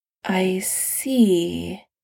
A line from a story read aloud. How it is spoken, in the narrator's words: Steve says slowly